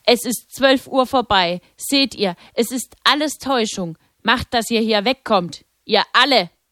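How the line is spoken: Angry shout. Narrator (German): offensichtlich erbost, und rief

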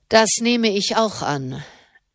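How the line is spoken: Dry. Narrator (German): sagte Malavolti trocken

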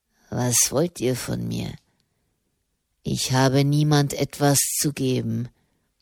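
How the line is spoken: Murmured. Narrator (German): murmelte er

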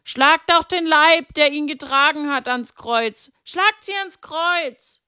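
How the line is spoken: Several people screaming. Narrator (German): Und manche schrien

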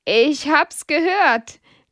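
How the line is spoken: Laughing. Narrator (German): lacht Hedwig

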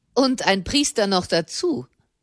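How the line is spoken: Man's scornful addition. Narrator (German): fügte ein Mann höhnisch bei

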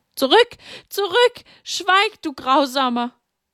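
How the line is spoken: Loud scream. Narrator (German): Sie schrie laut auf

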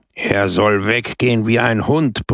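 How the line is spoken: Roaring. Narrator (German): brüllte Brusco

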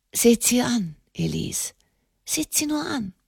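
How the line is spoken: Murmur. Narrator (German): murmelte Enemond de Montalier

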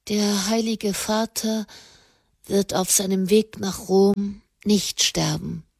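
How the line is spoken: Said quietly. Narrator (German): sagte sie leise

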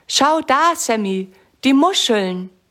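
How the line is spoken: Call. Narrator (German): ruft Lisa

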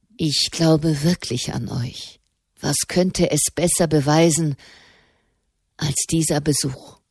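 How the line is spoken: Murmuring. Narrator (German): murmelte Gregor

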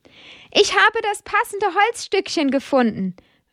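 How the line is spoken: Called out. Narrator (German): ruft er Amadeus zu

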